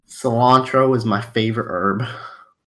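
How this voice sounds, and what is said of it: Sudden shift into a different accent. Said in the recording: “That accent changed just then. Where did that come from?”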